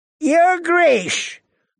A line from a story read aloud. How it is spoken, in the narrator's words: Lord Walder called out to Rob